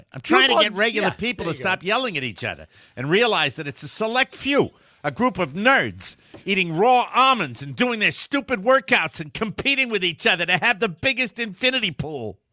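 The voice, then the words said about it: Bill Burr impression. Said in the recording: “I won't do a Bill Burr impression. Okay. But I might try.”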